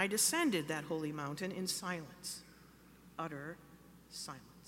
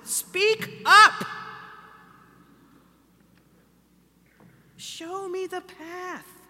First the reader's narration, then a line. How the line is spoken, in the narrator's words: I was shouting